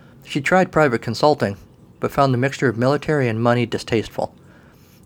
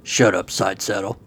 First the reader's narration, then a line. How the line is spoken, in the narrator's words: Colin grunted